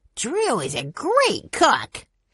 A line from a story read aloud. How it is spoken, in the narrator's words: he said happily